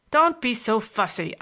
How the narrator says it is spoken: I snapped

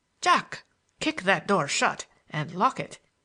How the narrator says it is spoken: he commanded in a sharp, severe tone

